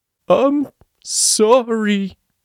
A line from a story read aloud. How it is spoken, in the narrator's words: he bawled into his hands